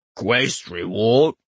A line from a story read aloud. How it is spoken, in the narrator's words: Kaz croaked